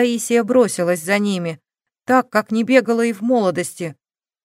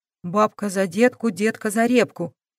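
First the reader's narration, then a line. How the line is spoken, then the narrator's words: Whispered. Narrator (Russian): прошептала Грайлих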